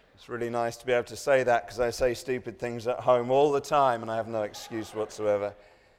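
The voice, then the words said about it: English accent. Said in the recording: “my strange accent, ... I'm English.”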